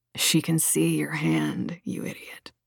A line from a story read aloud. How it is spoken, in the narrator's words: Agrippa muttered